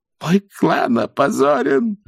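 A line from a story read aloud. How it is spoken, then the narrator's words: Sobbing. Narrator (Russian): рыдал Оябун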